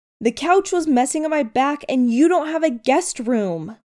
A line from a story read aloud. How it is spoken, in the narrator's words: Styles shouts